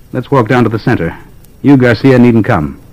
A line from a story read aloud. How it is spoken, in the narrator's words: Hardly moving his lips, he said clearly and quickly